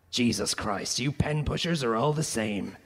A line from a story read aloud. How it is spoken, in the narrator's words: he growled